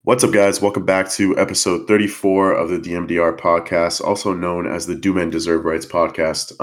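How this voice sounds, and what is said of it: Sick, congested voice. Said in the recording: “I sound a little sick on the mic, it's because I am. It's flu season ... if I sound sick”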